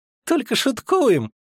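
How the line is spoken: Squeak. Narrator (Russian): пропищал Мельфи

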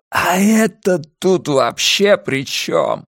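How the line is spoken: Hoarse rasp. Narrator (Russian): прохрипел Арни

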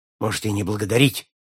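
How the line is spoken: Sharp reply. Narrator (Russian): резко ответил Аллен

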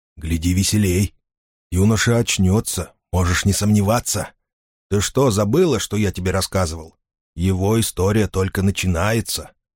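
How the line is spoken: Whisper. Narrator (Russian): Финолио прошептал

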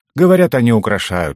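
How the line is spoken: Smirking grunt. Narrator (Russian): хмыкнул Угорь

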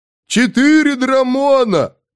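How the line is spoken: Rodent shouting from above. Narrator (Russian): крикнул сверху грызун

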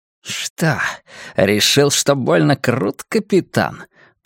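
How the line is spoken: Hissing. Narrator (Russian): прошипел Танский

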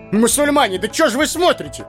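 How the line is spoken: Shouted. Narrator (Russian): закричал Хаджан Асреддин

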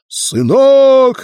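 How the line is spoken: Desperate shout. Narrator (Russian): отчаянно прокричал отец

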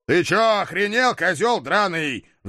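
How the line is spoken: Furious roar. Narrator (Russian): взревел я

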